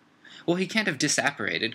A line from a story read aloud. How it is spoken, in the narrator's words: cried Umbridge